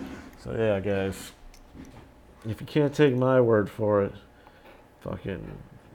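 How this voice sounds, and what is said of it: Usual voice. Nothing is said of it.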